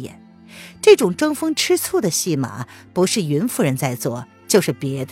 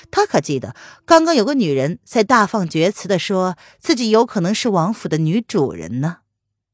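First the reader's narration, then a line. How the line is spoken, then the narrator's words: Amused. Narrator (Chinese): 萧逸天有些好笑的道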